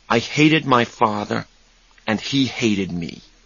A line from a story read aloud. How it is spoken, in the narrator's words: he said quietly